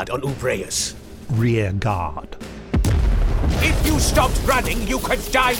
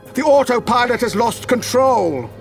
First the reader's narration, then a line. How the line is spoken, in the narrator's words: he bellowed